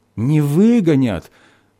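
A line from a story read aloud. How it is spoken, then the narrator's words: Joyful landlady agreeing. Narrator (Russian): радостно поддержала хозяйка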